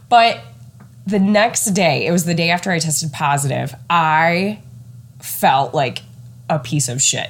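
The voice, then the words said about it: Congested, stuffy-nosed voice. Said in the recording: “My sinuses were a little bit congested, which if you've already been listening in, you could probably tell I sound a little congested today... My nose is still recovering.”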